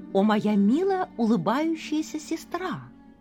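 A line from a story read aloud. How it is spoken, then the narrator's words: Plain. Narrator (Russian): ответила Кадру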